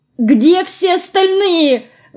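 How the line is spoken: Horrified exclamation. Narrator (Russian): воскликнула я в ужасе

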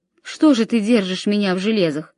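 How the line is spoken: Plain. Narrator (Russian): спросил его Годислав

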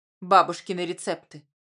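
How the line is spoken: Grumbling mutter. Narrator (Russian): пробурчал он

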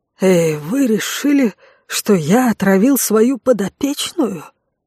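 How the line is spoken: Quiet, bitter. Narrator (Russian): Тихо, с горечью произнес Ксен

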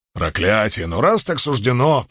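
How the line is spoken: Grumbling. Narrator (Russian): пробурчал Уна

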